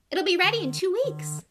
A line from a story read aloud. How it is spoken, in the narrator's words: she said happily